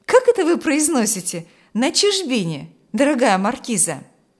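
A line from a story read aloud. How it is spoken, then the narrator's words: Cheerful objection. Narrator (Russian): весело возразил Адам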